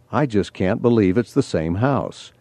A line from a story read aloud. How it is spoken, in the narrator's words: She kept muttering to herself